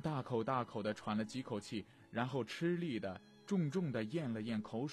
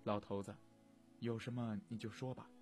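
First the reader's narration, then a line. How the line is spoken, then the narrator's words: Whispering in ear. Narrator (Chinese): 远花低声抚耳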